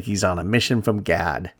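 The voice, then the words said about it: Poor imitation of movie character voice. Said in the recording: “my bad Blues Brothers impersonation”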